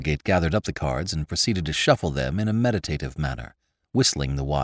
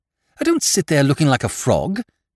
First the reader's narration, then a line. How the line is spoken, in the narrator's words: said Lord Drever irritably